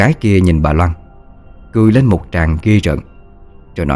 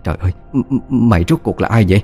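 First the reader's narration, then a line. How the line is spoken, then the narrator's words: Stammering old woman. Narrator (Vietnamese): Bà lắp bắp hỏi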